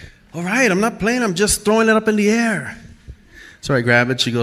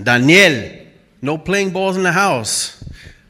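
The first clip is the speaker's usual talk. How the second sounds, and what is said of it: Put-on Spanish accent. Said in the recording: “she says my name with a Spanish accent”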